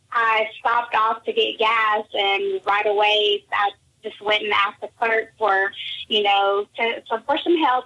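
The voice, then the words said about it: Slight Texan accent. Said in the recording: “I do have a small accent ... I love your Texan accent ... I didn't know it was that noticeable”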